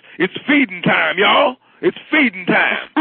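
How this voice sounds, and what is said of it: Cartoon shark character voice. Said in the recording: “I do the voice of Terrafin. He's a shark ... Terrafin talks like this”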